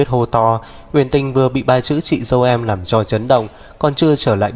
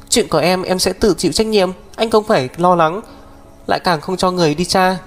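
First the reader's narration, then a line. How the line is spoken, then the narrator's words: Sobbing. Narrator (Vietnamese): nức nở vài tiếng, nói với Mục Thiên Dương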